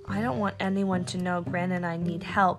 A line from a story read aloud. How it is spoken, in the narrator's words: she whispered